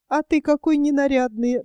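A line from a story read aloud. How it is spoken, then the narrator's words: Laughing. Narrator (Russian): рассмеялась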